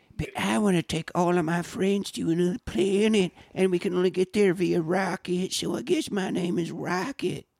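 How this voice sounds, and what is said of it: Waterboy-style impression. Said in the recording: “Bradley Cooper doing his best water boy impression”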